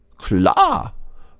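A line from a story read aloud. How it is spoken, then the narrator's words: Squirrel calling out. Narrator (German): ruft das Eichhörnchen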